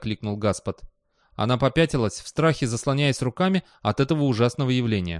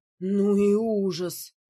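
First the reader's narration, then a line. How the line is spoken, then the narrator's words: Strained, forced out. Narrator (Russian): выдавила она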